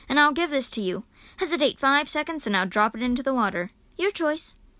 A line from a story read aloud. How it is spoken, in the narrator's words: he said firmly